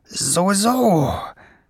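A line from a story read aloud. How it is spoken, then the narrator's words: Grumbling. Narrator (German): brummte Schwefelfell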